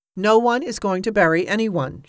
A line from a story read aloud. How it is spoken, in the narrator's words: she said firmly